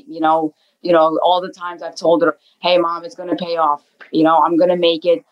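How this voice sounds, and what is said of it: New Jersey accent. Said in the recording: “your accent is so New Jersey”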